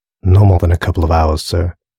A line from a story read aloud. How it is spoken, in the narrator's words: replied Gutteridge in his familiar monotone